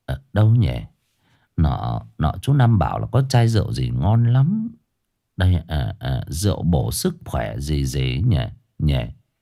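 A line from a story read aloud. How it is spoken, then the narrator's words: Muttering. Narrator (Vietnamese): nó lẩm bẩm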